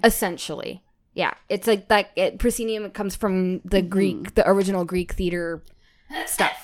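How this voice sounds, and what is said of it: Nasal, congested voice. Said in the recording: “I still have a cold ... I hear the nasaliness in my voice. Not like there isn't already some there usually, but like it's really, it's there.”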